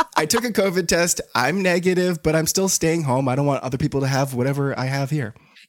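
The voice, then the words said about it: Sick, congested-sounding voice. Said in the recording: “Can you hear it in my voice? ... Yeah, I can hear it in your voice.”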